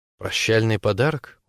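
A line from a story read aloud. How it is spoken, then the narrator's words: Quiet clarifying question. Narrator (Russian): уточняет тихо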